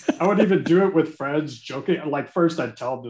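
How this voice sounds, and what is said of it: Usual voice. Nothing is said of it.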